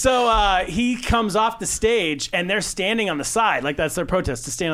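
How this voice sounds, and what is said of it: Usual voice. Nothing is said of it.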